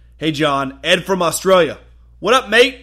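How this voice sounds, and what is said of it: Weak put-on Australian accent. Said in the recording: “I don't have a very good Australian accent.”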